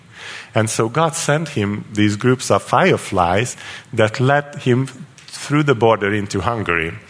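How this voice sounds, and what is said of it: Speaks English with an accent. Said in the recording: “I know I have an accent”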